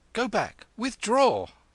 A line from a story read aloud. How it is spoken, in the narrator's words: Kim cried